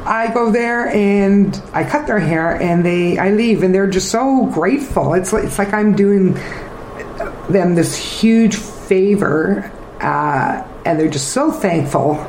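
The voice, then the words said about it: Emotional, teary voice. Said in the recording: “this is very emotional for you right now, isn't it? ... look at me getting teary-eyed.”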